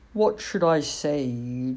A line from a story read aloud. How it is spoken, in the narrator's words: drawled the cat